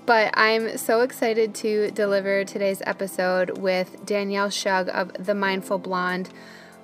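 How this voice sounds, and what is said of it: Scratchy, deeper, strained voice. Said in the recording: “I have a little bit of a scratchy throat ... My voice sounds a little bit deeper and just like I'm trying extra hard to talk”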